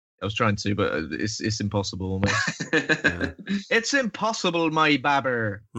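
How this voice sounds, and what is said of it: Bristolian English accent. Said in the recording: “It sounds great in the Bristolian accent as well ... I like your accent ... It's lovely.”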